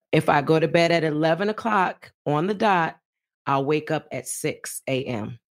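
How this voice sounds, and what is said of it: Raspy, tired voice. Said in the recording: “my voice is raspy”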